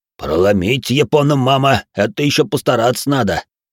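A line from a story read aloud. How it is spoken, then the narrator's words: Booming drone. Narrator (Russian): прогудел Грохот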